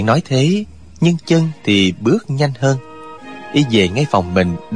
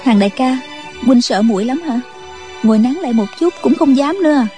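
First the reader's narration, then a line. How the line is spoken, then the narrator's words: Smiling. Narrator (Vietnamese): Chú Chỉ Nhược mỉm cười nói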